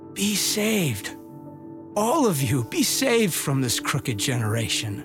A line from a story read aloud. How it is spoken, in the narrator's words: pleaded with them, saying